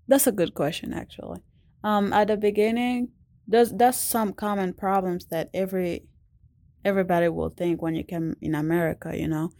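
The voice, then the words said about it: Non-native English accent. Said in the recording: “people out there that will love your accent ... your accent”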